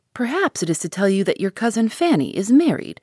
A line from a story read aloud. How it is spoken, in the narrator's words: said Mrs